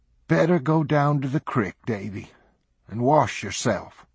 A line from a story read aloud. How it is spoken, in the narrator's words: she said, her voice softer, but still stern